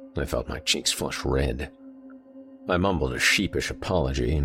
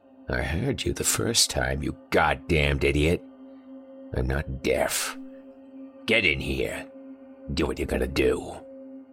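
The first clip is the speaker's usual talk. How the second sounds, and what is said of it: Hoarse, papery, hissing voice. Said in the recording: “a hoarse, papery voice that hissed”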